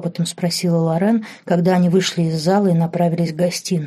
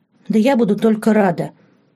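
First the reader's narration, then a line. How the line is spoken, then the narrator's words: Sincere exclamation. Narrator (Russian): искренне воскликнула Лорен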